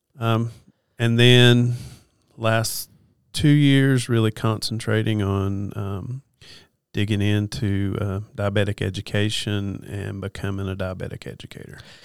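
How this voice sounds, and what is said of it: Soothing Western North Carolina accent. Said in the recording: “I think you kind of have an accent ... I'm from Western North Carolina ... The hills of North Carolina ... I'm a little bit of a hillbilly ... I love the accent, man. It's very soothing.”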